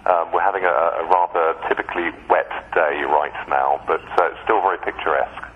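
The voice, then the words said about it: British English accent. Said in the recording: “I love your accent. It's great. Where exactly are you in Britain?”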